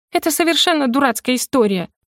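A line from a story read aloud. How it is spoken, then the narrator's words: Shrill feigned squeal. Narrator (Russian): Вещала я визгливым голоском, продолжая играть роль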